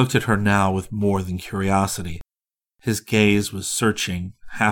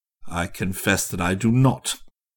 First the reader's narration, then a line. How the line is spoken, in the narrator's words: he coldly persisted